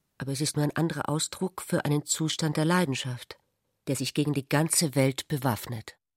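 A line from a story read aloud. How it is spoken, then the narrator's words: Embarrassed. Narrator (German): sagte Ulrich verlegen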